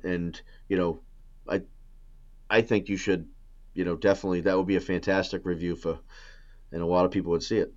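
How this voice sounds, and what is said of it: New England American accent. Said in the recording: “You can slip into that New England accent sometimes”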